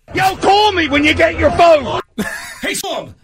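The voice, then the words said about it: Imitated Philadelphia accent. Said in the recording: “Philly you accent ... He sounds just like that.”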